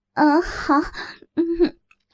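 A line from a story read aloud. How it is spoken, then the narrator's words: Teasing. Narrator (Chinese): 我调笑道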